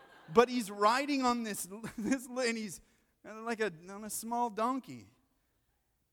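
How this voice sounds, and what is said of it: Usual voice. Nothing is said of it.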